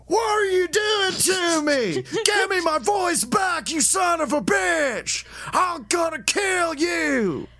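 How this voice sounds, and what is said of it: Over-the-top frantic screaming voice. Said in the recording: “It's way too over the top. It's absolutely insane ... one caged animal coming up”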